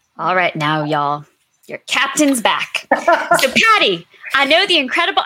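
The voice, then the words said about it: Put-on Southern American accent. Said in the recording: “I'm like still talking in my horrible Southern accent. ... It was really good.”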